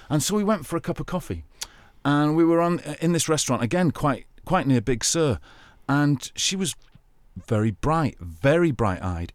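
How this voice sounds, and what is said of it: English accent. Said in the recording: “I'm an English guy with a very attractive English accent”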